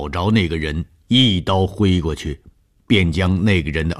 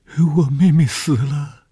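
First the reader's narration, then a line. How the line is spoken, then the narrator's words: Pitiful girl crying. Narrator (Chinese): 这是一个可怜的女孩 便哭起来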